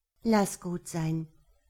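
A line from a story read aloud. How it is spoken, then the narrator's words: Gentle. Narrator (German): sagte Hella sanft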